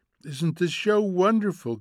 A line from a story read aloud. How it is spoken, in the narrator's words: cried Mildred